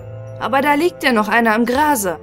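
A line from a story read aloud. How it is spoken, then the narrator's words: Neighbor calling out. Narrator (German): rief der Nachbar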